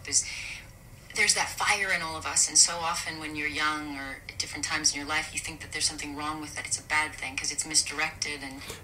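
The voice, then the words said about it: Light, gentle, clipped articulate voice. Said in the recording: “she's very articulate. She's very light and gentle... she's not pushy at all, but she's very clear... she's not throwing her voice out there despite, you know, the kind of placement of her accent... light and clipped almost... it's a light voice”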